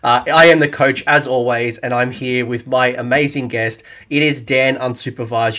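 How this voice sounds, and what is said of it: Australian accent. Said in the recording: “it's good to hear an Australian accent again.”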